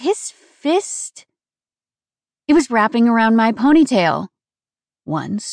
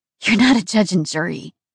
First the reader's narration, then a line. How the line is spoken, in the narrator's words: I breathed